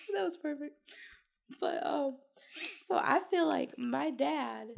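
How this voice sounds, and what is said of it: Strained, high-pitched failing voice. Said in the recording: “I'm losing my voice. ... your voice is so high.”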